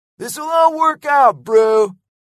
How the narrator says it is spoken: yelled Lego

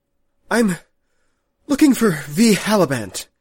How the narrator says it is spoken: Ganon Thidrich said, gasping a little for breath after his climb

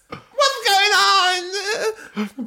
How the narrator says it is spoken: Bella cried

